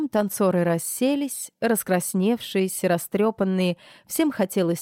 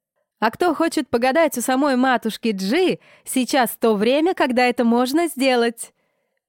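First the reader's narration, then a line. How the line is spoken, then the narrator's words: Shouting. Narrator (Russian): прокричала Нелли Ворона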